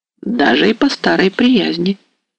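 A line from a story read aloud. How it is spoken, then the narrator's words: Muffled repetition. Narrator (Russian): повторил глухо Самойлович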